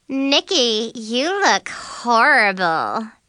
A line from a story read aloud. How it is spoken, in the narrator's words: Mackenzie said, sneering